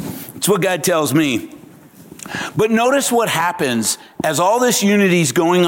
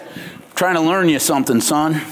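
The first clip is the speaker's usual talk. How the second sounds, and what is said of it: Put-on Kansas accent. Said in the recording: “God speaks to me in a Kansas accent.”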